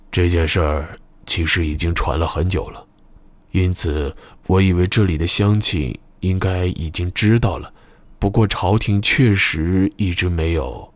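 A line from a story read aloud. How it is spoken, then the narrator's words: Low, unsure. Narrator (Chinese): 野朵巴云 他压低声音，不自信地答道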